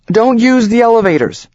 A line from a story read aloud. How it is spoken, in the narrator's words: the sales lady shouts